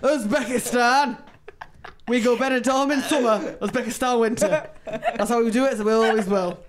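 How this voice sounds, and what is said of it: Put-on Yorkshire accent. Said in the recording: “That's the first time I've ever heard that in a Yorkshire accent before in my life.”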